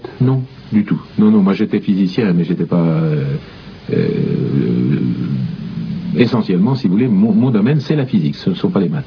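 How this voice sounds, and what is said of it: Burgundy regional French accent. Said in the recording (French): “Je crois reconnaître dans votre accent un pays que je connais ... Bourgogne et Morvan”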